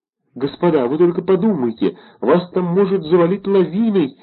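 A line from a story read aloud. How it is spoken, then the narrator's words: Pitiful shout, near sobbing. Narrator (Russian): жалостным голосом крикнул, чуть не рыдая, господин граф Герин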